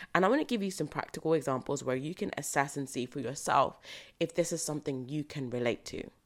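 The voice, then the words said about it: Slightly croaky voice. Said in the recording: “my voice sounds a little croaky, we're recording quite early in the morning, and yeah, my voice is still warming up”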